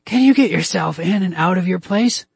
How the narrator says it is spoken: She asked me, her voice hoarse

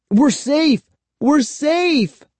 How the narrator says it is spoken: cried

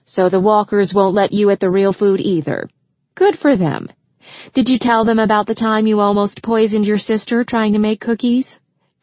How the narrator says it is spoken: Christian laughed

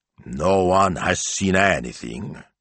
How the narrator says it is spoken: Signor Maestro growled

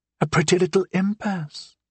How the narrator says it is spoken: Glass said quietly

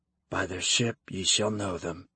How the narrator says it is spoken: he said under his breath

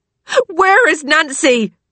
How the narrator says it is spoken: Lily shouts

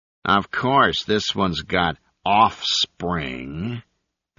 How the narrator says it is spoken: the newcomer growled

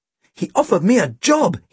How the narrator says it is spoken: he exclaimed

